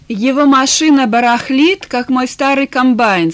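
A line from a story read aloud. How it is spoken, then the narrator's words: Plain. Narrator (Russian): сказал он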